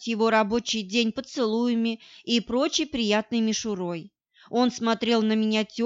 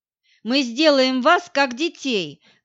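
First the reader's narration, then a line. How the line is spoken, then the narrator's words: Shouting. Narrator (Russian): кричал другой коллега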